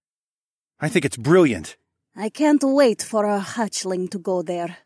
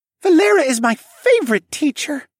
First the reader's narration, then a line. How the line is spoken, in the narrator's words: Ilya squealed